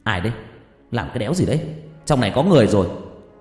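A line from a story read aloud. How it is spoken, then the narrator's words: Startled shout. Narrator (Vietnamese): Tôi giật mình quát lên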